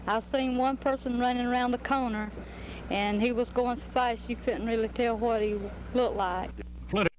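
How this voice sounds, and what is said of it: Southern American accent. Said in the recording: “Gotta love that southern accent.”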